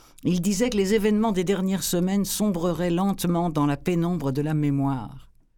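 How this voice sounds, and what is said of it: Strong French accent. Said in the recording (French): “avec mon gros accent français ... c'est la première fois que j'entends mon livre avec cet accent”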